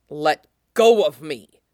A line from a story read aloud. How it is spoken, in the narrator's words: Hephaestus snaps